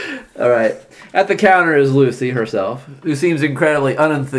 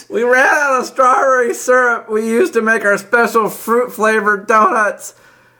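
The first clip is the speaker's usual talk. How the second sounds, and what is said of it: Old lady character voice. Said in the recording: “do a Lucy voice? ... she's a sweet old lady that sells donuts”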